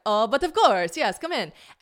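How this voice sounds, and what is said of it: Poor imitation French accent. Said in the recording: “the French accent so bad because I only do the British accent well now, so I can't do the French accent.”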